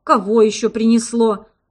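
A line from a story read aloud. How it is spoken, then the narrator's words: Grumble. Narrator (Russian): буркнула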